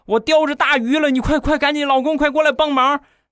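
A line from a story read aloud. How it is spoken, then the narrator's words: Loud shout. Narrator (Chinese): 大喊一声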